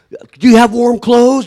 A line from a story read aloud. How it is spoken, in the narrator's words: I yelled